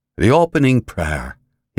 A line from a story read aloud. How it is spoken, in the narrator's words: he called huskily